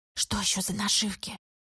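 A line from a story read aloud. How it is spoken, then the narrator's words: Whisper. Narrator (Russian): прошептал Тим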